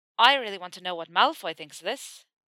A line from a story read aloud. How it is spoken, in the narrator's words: Seamus said, his voice tipping up at the end just enough to phrase the statement as a question